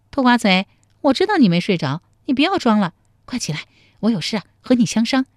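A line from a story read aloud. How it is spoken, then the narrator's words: Cheerful, teasing. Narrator (Chinese): 陶三春笑嘻嘻地说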